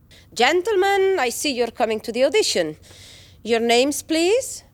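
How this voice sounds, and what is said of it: Spanish accent, poor English. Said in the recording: “Why this accent? Your English is awful. ... I come from Castilla.”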